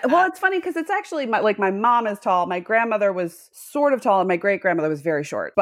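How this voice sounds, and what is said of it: Slight Midwestern American accent. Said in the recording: “my accent sounds a little bit Midwest. I got rid of my Massachusetts accent ... it became a little bit Midwest”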